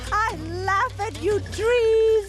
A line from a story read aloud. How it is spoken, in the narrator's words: She shouted